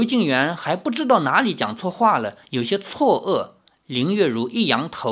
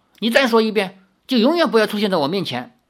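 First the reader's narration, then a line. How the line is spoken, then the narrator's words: Angry. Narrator (Chinese): 林月如怒道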